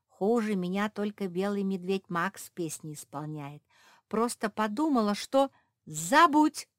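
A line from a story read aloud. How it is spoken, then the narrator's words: Exclaimed in unison. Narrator (Russian): хором воскликнули все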